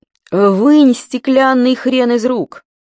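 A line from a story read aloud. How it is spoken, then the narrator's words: Sudden shout. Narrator (Russian): Вдруг крикнул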